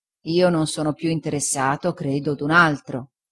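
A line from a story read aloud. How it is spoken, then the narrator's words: Plain. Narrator (Italian): disse Omer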